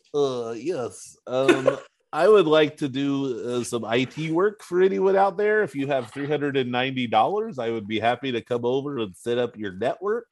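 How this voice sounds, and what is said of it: Put-on Ukrainian accent. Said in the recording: “adopted a Ukrainian accent for it”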